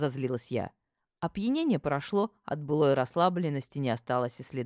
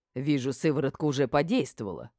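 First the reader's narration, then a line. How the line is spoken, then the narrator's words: Mother's amused snort. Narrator (Russian): хмыкнула мама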